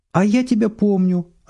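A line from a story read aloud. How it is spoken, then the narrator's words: Joyful declaration. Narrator (Russian): радостно заявляет Сергей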